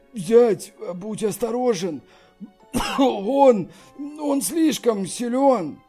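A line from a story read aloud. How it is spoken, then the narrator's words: Pained voice. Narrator (Russian): Сказал Ся Юаньба, болезненным голосом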